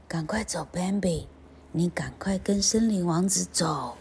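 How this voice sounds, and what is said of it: Quiet, hushed storytelling voice. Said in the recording (Chinese): “小声的对 Bambi 说”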